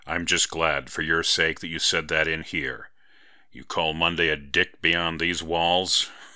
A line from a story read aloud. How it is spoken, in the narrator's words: He laughed again